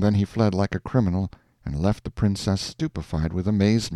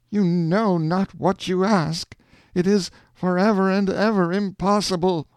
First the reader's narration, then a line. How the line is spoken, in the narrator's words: in desperation, he cried